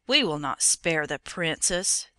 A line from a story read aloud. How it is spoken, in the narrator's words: growled in low threatening tones